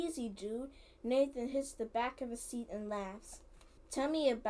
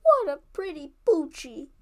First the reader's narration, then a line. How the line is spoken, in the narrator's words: Carly exclaims